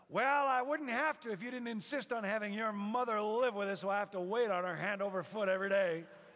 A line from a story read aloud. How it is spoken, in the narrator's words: she shouted back even louder